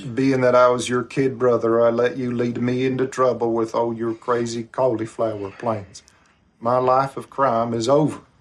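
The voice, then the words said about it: Thick Southern accent. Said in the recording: “that's Kylo Ren you're hearing with that thick Southern accent ... How it says cauliflower.”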